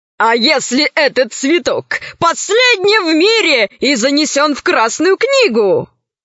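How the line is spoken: Amused question. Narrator (Russian): спросил крыс и сам же засмеялся

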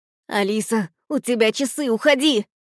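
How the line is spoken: Shouted. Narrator (Russian): Прокричал Додо

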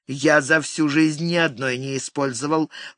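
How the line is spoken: Indignant holding forth. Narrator (Russian): принялся возмущенно вещать Микки

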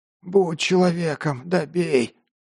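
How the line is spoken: Hoarse wheeze. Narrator (Russian): прохрипел тот

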